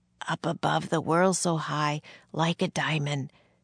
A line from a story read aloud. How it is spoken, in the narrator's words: Barely moving his lips, Jack whispered